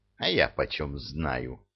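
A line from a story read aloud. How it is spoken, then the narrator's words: Snort. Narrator (Russian): хмыкнуло трюмо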